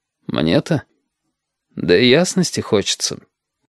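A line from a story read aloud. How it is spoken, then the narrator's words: Old man's sigh. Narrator (Russian): как-то по-стариковски вздохнул Крас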